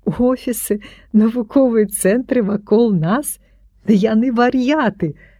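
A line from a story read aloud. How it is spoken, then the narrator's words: Laughing. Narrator (Belarusian): засмяяўся я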